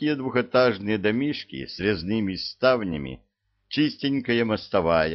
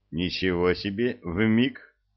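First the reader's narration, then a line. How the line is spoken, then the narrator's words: Snorting. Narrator (Russian): хмыкнул Илья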